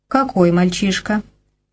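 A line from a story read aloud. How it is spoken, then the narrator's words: Cold inquiry. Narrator (Russian): холодно осведомился Грей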